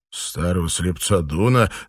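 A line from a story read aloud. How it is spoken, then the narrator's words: Laughing. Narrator (Russian): засмеялся Данрос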